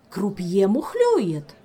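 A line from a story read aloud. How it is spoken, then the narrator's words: Indignant proclamation. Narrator (Russian): возмущенно возглашал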